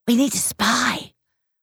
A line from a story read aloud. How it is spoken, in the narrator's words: whispered